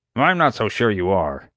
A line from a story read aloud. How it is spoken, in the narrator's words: Doc snapped